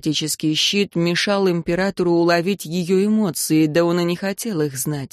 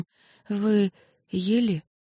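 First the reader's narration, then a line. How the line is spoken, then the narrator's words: Startled, slightly trembling voice. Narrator (Russian): Она вздрогнула и, вздохнув, спросила чуть дрожащим голосом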